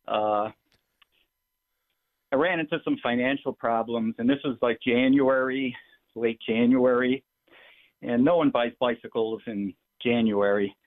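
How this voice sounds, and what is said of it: Out of breath, breathless speech. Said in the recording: “I'm out of breath. ... I was lifting weights.”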